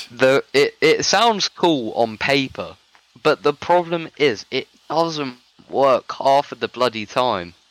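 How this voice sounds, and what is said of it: British accent. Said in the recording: “that sounded really British ... you're from the UK. You should sound British.”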